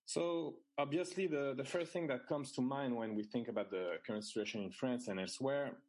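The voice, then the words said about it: French-accented English. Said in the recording (French): “my French accent”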